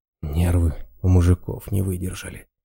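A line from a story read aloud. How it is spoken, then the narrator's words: Sad sigh. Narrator (Russian): Раз с грустью вздохнул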